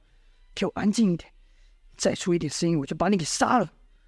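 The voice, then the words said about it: Quiet threatening whisper. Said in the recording (Chinese): “里面的人小声的说道”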